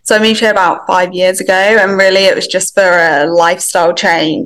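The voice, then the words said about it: English accent. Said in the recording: “you could potentially tell from the accent that I'm actually from England”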